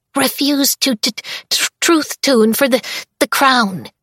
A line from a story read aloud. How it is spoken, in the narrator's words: he squeaks out